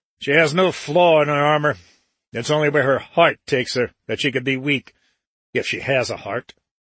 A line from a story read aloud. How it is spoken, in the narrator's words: He snarled the words